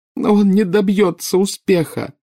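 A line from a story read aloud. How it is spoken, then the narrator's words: Sobbing. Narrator (Russian): рыдала Нарцисса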